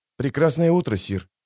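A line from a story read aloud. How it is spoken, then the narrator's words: Quiet. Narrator (Russian): тихо произнес охранник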